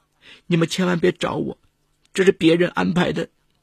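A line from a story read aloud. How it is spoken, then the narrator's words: Frightened crying girl. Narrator (Chinese): 女孩立刻被吓住了，哭着说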